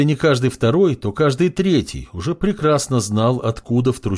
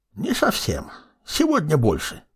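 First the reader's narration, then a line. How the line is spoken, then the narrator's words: Creaky old voice. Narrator (Russian): проскрипел старик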